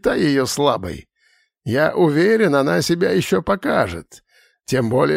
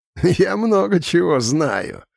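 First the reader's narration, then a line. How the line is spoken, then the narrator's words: Laughing. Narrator (Russian): рассмеялся Икрон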